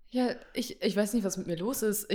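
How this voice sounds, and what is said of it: Altered voice sounding like a woman. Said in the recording (German): “irgendwas stimmt mit meiner Stimme heute nicht ... ich höre mich an wie eine Frau”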